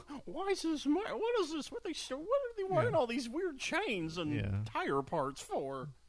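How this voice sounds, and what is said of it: Imitates another person's voice. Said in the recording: “your own Jimmy Stewart impression ... That's my best Jimmy Stewart.”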